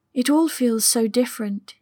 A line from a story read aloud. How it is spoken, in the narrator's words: admitted quietly